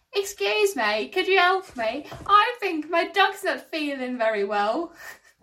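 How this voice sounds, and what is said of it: Put-on generic English accent. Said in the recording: “a new English accent ... The accent's not very specific”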